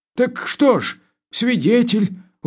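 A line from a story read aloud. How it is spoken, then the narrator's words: Dejected voice. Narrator (Russian): упавшим голосом сказал комендант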